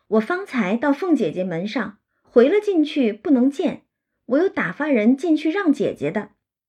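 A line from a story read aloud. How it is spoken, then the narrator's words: Laughing. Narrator (Chinese): 宝玉……笑说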